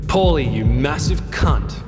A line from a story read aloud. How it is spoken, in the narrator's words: cackled